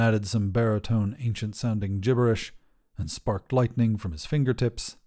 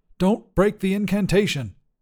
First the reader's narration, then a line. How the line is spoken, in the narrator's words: snapped